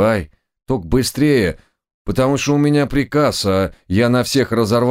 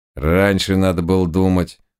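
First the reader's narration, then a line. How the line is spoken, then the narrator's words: Gloomy declaration. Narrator (Russian): мрачно заявил Кольт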